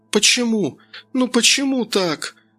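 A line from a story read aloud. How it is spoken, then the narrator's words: Sobbing. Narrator (Russian): Сквозь рыдание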